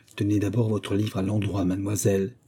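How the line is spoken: Low, trembling with anger. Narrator (French): dit-elle à voix basse mais en tremblant de colère

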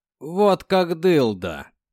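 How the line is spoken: Laughing chuckle, man. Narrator (Russian): хохотнул один из сержантов

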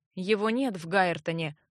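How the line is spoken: Gloomy report. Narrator (Russian): мрачно сообщил Эгрис

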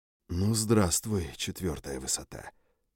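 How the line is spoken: Whisper. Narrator (Russian): прошептал я

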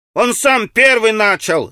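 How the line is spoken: Irritated child's shout. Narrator (Russian): закричал мальчик в красной рубашке раздраженным детским голоском

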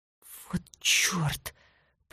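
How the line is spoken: Whisper. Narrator (Russian): прошептал Рики, когда Тори вцепилась в его руку

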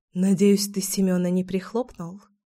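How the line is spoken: Whisper. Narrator (Russian): шепнула я

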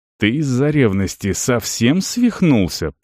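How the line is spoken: Hissed out of earshot, warrior. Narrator (Russian): прошипел воин, когда они оказались там, где Эрига их уже не могла услышать

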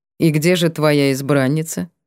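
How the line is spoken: Dry inquiry. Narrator (Russian): Сухо поинтересовался Теомер

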